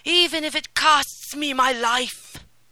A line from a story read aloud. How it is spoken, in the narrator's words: cried